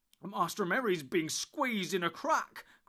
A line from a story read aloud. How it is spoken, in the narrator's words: cried Sam